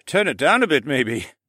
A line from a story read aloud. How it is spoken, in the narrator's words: the Falcon Man chuckled